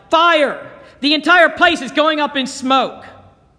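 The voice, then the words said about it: Panicked yelling. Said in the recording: “in a panicked voice, yelled”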